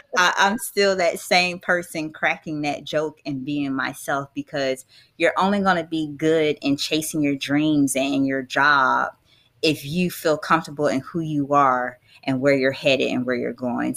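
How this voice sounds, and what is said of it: Southern US country accent. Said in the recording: “I'm ... from Jacksonville, Florida with a country accent.”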